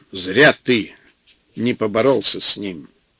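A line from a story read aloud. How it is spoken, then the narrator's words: Angry. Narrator (Russian): сказал сердито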